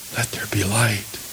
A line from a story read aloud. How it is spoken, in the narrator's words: God whispered